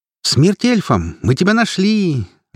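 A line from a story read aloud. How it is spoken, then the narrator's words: Joyful proclamation. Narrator (Russian): радостно провозгласила Велла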